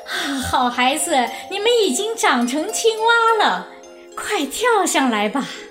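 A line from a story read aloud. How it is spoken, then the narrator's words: Smiling mother. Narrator (Chinese): 青蛙妈妈笑着说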